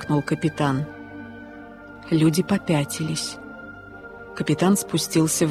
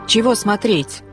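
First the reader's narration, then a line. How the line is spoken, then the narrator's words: Shout. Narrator (Russian): крикнул кто-то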